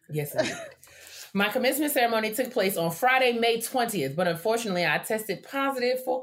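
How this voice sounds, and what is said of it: Usual voice. Nothing is said of it.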